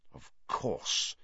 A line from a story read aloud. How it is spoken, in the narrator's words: Sirius muttered